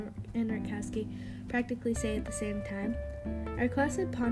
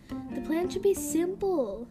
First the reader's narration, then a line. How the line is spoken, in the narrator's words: yells Caitlin